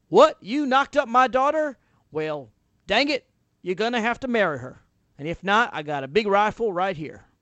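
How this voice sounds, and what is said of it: Weak put-on Western accent. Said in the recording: “I don't really do a Western accent that well”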